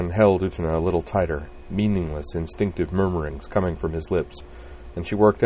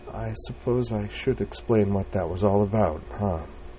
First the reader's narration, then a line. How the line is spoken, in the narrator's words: with a weak, wan smile and said in a softly wavering voice